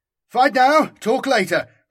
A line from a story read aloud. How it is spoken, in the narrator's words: I screamed, certain we were staring death in the face, and determined to defy it for as long as possible